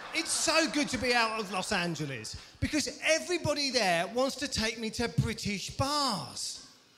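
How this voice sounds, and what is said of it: English accent. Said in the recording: “being English ... this accent”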